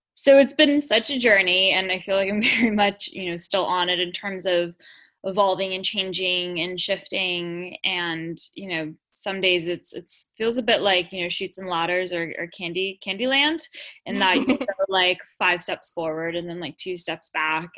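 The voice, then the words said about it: Southern Californian American drawl. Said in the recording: “I'm sure you heard by my accent, I am not a native Brit ... I'm from Los Angeles originally, so I have that kind of SoCal drawl.”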